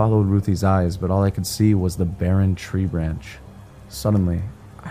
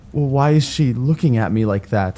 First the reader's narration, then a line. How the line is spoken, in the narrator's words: Ruthie says in a terrified voice